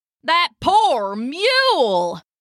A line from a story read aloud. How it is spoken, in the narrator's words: a nearby wagoner shouted